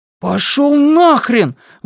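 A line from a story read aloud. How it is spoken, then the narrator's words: Shout. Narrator (Russian): выкрикнул Блейз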